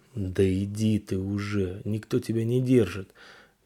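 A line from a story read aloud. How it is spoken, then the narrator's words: Hoarse voice. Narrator (Russian): Сиплый голос небритого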